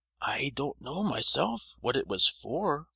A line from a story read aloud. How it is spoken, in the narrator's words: replied the poor old man